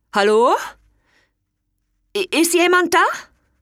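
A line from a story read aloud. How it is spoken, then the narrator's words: Too loud, echoing. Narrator (German): Seine Stimme tönte viel zu laut und kam als Echo von den Bergen zurück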